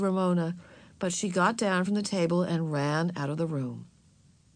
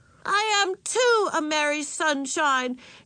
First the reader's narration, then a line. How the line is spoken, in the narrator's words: she shouted angrily